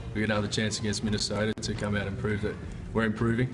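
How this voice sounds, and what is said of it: Australian accent. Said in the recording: “That's one cool accent. I wish I had an Aussie accent”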